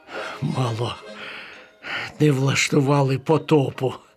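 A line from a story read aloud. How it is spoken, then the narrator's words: Relieved sigh. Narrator (Ukrainian): з полегкістю зітхнув Макс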